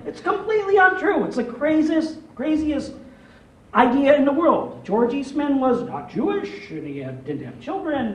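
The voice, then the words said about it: Rochester, New York accent. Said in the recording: “As you can tell from my accent, I'm not from here ... I'm from Rochester, New York ... the thickest Rochester accent”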